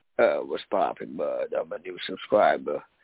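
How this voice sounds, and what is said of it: Disguised fake voice. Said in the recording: “that fucking fake voice”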